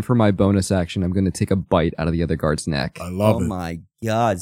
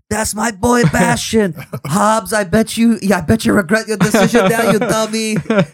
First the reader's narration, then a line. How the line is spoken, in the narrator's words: Sif like yells